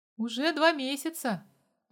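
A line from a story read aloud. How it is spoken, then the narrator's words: Man's shaky reply. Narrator (Russian): подрагивающим голосом ответил мужик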